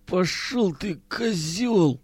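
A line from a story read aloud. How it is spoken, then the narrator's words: Hoarse, dry-mouthed rasp. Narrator (Russian): прохрипел Миронов, с трудом ворочая пересохшим языком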